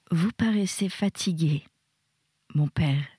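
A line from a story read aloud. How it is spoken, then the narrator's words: Affectionate. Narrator (French): dit d'un ton affectueux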